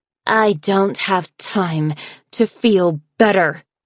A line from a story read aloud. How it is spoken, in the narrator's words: she said through gritted teeth